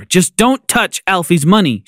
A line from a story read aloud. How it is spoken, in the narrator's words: she said firmly